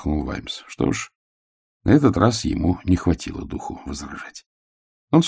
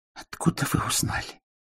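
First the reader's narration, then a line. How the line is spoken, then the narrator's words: Breathed out. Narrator (Russian): выдохнул он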